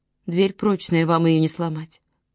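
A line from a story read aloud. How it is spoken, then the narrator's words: Sighing. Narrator (Russian): вздохнула Миранда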